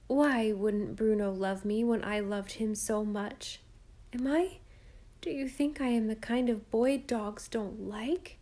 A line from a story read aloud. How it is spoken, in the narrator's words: said in a choked voice